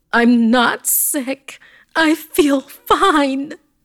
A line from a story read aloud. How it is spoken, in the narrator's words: I heard her scream